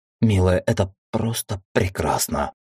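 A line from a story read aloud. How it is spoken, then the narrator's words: Tender breathy whisper. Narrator (Russian): прошептал, нежно дыша ей в шею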